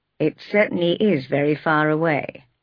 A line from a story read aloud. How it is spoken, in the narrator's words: he said calmly